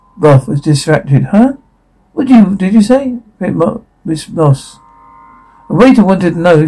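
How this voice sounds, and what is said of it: Usual voice. Nothing is said of it.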